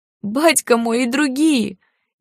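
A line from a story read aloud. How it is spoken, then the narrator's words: Crying with convulsive sobs. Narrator (Russian): Еще сильнее расплакался, судорожно всхлипывая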